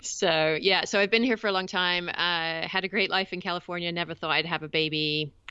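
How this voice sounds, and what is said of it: English accent with slight American influence. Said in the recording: “I am English originally. Although I've been in the States for about 20 years now, and I understand that it has rubbed off a little bit, although I still sound English in my head.”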